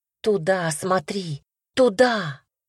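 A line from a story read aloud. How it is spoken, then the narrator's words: Exclaiming. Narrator (Russian): воскликнула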